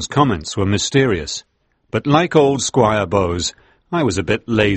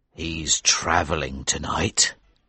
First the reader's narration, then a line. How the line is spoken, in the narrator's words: said Tom in a low voice